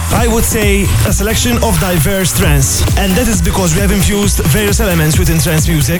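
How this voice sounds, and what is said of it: Speaking with a foreign accent. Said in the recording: “keep it up with the accent. Really great.”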